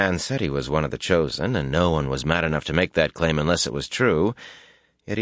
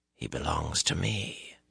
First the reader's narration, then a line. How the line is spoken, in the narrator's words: a man whispered